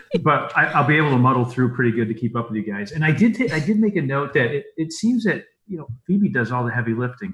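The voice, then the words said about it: Speaks with an unusual accent. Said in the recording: “I have a funny accent. So it may appear that I am slow”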